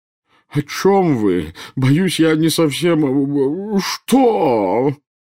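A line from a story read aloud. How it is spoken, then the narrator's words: Wailing. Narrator (Russian): взвыл премьер-министр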